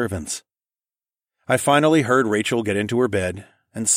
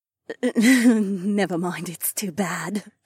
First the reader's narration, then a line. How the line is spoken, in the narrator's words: Sienna giggled softly